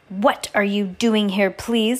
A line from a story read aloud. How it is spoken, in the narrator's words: Madame Lulu snarled